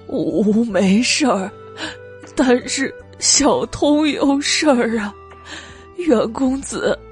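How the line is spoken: Crying speech. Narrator (Chinese): 蜜色荷花盏哭道

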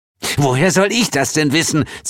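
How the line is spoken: Hissing. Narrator (German): zischte Hel

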